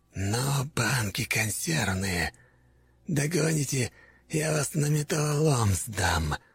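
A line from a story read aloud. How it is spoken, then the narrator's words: Hateful hiss. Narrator (Russian): прошипел он, с ненавистью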